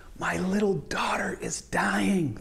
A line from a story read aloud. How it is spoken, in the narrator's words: pleaded earnestly